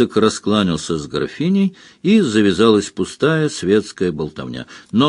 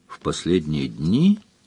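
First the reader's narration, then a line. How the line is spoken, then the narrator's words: Thoughtful repetition. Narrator (Russian): задумчиво повторил Сварог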